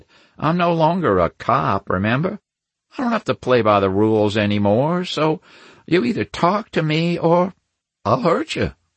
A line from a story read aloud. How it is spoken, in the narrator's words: I said sweetly